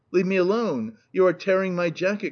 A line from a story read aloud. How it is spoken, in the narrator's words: cried the unhappy victim